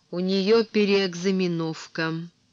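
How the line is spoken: Through gritted teeth. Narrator (Russian): Он процедил сквозь зубы

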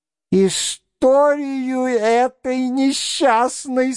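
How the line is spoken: Drawled with a spiteful laugh. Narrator (Russian): со злобным смехом протянула Прасковья Ивановна

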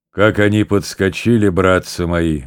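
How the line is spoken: Deep bass voice. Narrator (Russian): говорил басом один высокий солдат

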